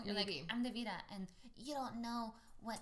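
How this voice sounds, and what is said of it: Put-on accent. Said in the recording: “you're the one that got the accent.”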